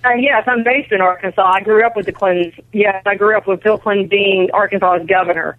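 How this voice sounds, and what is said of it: Southern American accent. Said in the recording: “i'm detecting a southern accent there”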